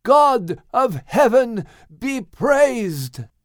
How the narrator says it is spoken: exclaimed Noah along with his family

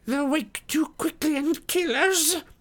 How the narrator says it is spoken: whined Smeagol in a last effort

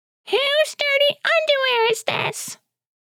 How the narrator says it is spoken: the secretary of the school yells out

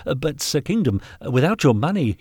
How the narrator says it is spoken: stammered

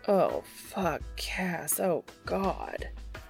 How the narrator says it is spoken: he groans

